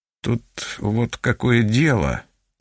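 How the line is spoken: Mumbling. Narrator (Russian): начал мямлить

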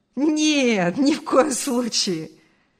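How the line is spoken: Laughing. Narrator (Russian): рассмеялся Артур

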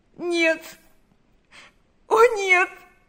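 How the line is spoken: Sobbing. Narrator (Russian): зарыдала она

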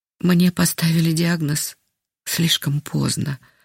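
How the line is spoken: Sighing. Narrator (Russian): вздохнула она

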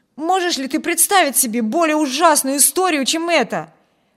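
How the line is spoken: Exclaimed, young man. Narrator (Russian): воскликнул младший Тревор

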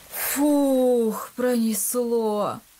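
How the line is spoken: Relieved exhale. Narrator (Russian): выдохнул Илья

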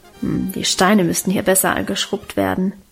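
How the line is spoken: Grumbled muttering to herself. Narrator (German): brummte sie vor sich hin

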